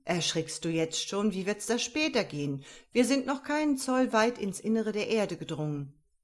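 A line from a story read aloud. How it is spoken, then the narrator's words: Uncle calling out. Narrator (German): rief mein Oheim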